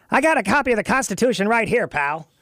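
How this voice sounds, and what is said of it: Impression of Mark Levin. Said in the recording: “As Mark Levin would say ... did you just imitate Mark Levin? ... I love your impersonation of Mark.”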